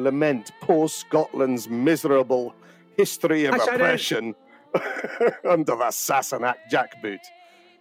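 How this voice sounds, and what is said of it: Weak put-on Scottish accent. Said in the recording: “Is that supposed to be a Scottish accent? ... I think it was quite sort of recognisably Scottish, wasn't it? Like my accents are particularly bad. ... No. ... I mean, I don't want to be rude, but but no.”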